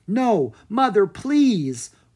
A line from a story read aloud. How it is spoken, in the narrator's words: Opelli pleaded